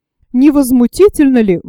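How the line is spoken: Exclaimed. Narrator (Russian): воскликнула Мари Лоран

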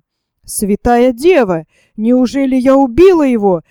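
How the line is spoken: Exclaimed. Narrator (Russian): воскликнула Исидора

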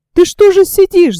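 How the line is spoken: Shouted. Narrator (Russian): закричала Таня

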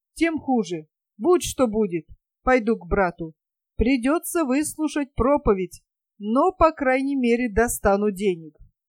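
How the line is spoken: Exclaiming. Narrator (Russian): воскликнул

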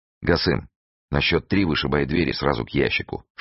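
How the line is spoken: Whisper. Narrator (Russian): шепнул Фондорин

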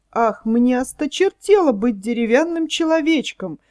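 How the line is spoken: Exclaiming. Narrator (Russian): воскликнул Пиноккио

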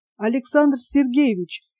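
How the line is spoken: Frightened. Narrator (Russian): испуганно кинулся к нему один из дежуривших здесь наблюдателей

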